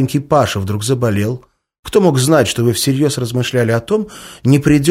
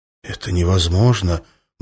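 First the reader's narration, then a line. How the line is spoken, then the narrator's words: Muttering. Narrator (Russian): бормотал он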